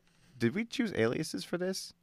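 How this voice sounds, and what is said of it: Whispering. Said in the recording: “whisper”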